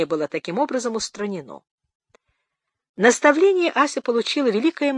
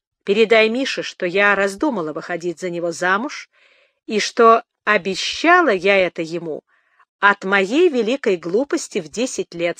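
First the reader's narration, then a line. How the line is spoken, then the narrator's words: Plain. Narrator (Russian): сказала Лёля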